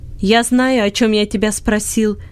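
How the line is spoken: Angry shouting. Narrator (Russian): сердито кричал Бинет

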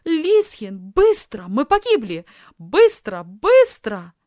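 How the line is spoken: Screamed. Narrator (Russian): закричала Софи

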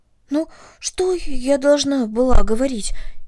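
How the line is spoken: Frightened question. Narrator (Russian): испуганно спросила Корнели

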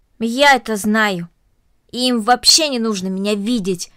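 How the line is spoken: Angry. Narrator (Russian): сердито произнесла Корнели

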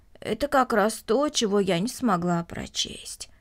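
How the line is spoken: Plain. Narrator (Russian): ответила Марта

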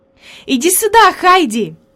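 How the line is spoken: Glad exclamation. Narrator (Russian): воскликнула Клара, увидев подружку

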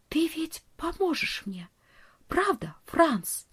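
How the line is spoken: Distant whisper. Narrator (Russian): Нон … прошептала

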